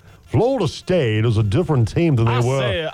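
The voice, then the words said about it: Imitates another person's voice. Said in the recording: “I'll try to do my Boo Corrigan voice.”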